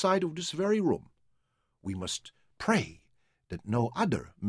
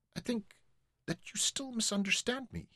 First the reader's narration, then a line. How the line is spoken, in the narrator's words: he said sadly